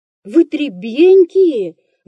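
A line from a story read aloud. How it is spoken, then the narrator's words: Stern exclamation. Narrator (Russian): воскликнул строгий допросчик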